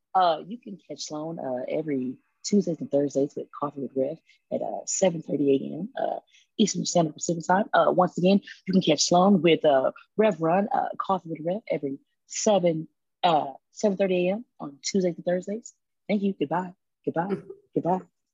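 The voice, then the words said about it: Polished customer service voice. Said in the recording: “a top-notch customer service voice”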